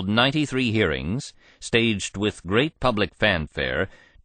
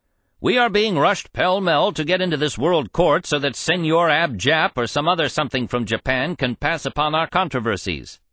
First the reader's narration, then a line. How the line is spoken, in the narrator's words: Huey Long shouted